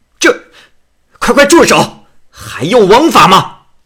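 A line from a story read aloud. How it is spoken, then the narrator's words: Furious young man shouting. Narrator (Chinese): 这文人生啊，年轻仗义，气愤的不能自持，便大声喝道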